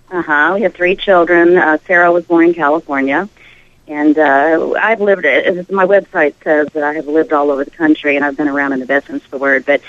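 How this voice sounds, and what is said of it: Southern American accent. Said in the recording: “Cute accent. ... The Southern, it's the I words that give me away.”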